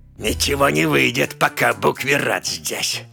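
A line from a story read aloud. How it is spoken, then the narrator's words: Grumbling. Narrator (Russian): пробурчал Кермыр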